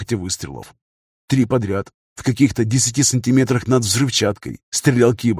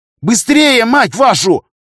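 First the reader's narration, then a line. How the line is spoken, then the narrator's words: Hostage nearly screaming. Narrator (Russian): Уже почти заорала винтурком заложница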